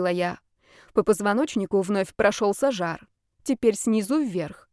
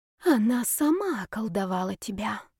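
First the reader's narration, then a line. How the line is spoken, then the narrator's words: Barely audible whisper. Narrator (Russian): прошептала Маслова едва слышно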